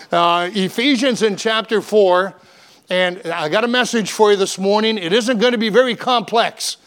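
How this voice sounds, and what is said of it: Hoarse, strained voice. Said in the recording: “lost my voice.”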